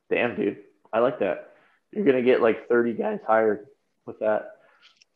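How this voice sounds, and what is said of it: Voice going hoarse. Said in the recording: “I'm losing my voice, man. I got to get it back.”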